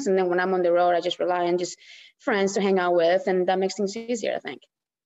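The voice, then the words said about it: Alabama accent mixed with Spanish. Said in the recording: “I can really hear that Alabama accent now ... Mixed with her Spanish.”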